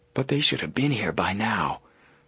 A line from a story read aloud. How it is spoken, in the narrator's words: Joe whispered